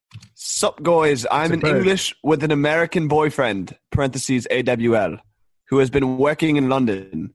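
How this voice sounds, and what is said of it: Put-on English accent. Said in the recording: “I'm going to read this in an English accent because it's an English girl.”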